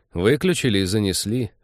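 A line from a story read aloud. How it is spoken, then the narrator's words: Gloomy admission. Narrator (Russian): мрачно признался Тед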